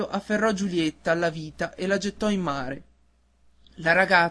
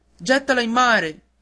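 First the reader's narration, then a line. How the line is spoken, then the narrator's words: Group shouting. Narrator (Italian): gridarono i marinai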